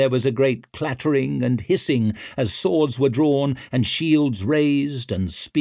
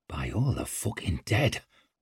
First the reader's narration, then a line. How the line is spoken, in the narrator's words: whispered Whitewater